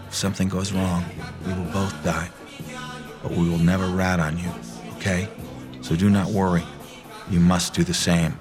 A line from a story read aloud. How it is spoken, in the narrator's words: Lev leans over to me, smiling like a monkey, and whispers